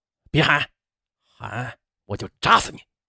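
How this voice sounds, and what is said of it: Low, threatening growl. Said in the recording (Chinese): “低声喝道”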